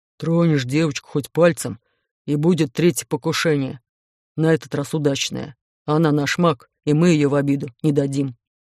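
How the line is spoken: Menacing deep bass. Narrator (Russian): грозно пробасил

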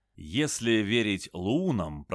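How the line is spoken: Musing aloud. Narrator (Russian): продолжал размышлять Макс

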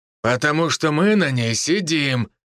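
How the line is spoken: Man's growl. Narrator (Russian): рыкнул один из мужчин

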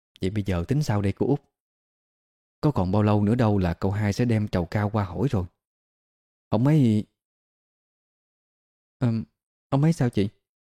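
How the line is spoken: Probing question. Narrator (Vietnamese): hỏi dò

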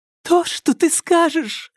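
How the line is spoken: Hurried, trembling voice. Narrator (Russian): торопливым, дрожащим голосом заверила его Алька

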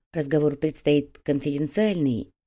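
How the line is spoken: Quiet speech. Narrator (Russian): тихо произнес секретарь

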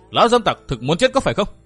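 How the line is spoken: Loud shout. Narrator (Vietnamese): nàng liền quát to

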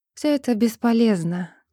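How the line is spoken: Sad. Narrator (Russian): грустно сказала Джоди

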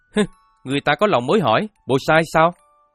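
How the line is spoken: Shouting back. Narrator (Vietnamese): Nhiệm Phi Yến cũng quát lại

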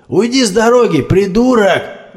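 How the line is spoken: Yelled. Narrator (Russian): заорал Орех

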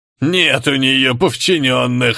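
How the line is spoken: Laughing. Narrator (Russian): засмеялся одноглазый

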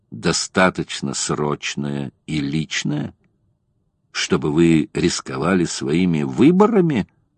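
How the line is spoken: Plain. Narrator (Russian): спросил он

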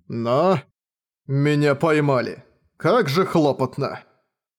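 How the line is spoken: Groan. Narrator (Russian): Простонал он

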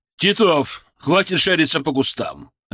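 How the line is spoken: Barking. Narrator (Russian): рявкнул Рикович

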